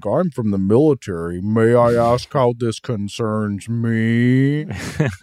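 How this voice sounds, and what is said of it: Impression of General Saunders' line delivery. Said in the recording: “this guy's line deliveries ... hilarious ... I don't know if I can do an impression”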